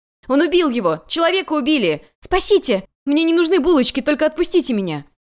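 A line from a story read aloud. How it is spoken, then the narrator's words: Loud. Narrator (Russian): Юань Чуньван громко произнес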